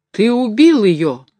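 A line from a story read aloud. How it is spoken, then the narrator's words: Exclamation. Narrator (Russian): воскликнул башмачник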